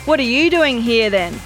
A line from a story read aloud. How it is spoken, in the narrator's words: As quick as a wink, Tween Lane yelled back